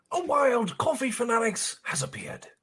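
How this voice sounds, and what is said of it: Nature documentary narrator voice. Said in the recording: “in your best Discovery Channel voice”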